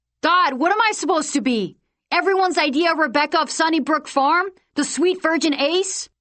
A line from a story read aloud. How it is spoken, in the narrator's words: she shouted at him